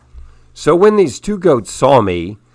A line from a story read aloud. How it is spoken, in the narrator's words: they snapped in line